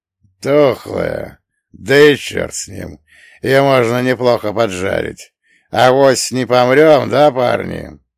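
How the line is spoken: Stupid chuckle. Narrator (Russian): Здоровяк глупо хохотнул

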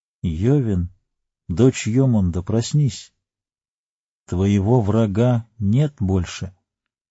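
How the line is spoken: Soft calling. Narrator (Russian): негромко позвал

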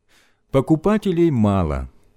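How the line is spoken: Sad. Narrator (Russian): сказал он грустно

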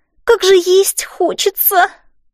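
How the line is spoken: Moan. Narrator (Russian): простонала Элси

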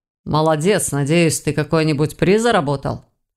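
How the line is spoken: Snorted. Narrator (Russian): хмыкнул Войтах

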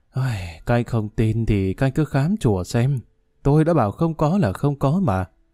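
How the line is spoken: Sighing. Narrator (Vietnamese): Thầy Thiện thở dài

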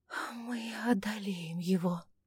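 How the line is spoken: Hoarse, breathless after kiss. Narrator (Russian): хрипло из-за сбившегося после поцелуя дыхания пообещала Августа

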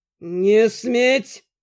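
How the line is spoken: Through gritted teeth. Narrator (Russian): процедил Вернан

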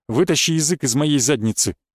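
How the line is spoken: Displeased. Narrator (Russian): недовольным голосом сказал

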